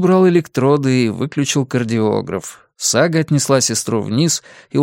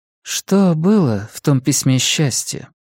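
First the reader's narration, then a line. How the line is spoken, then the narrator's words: Quiet question. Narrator (Russian): тихо спросила она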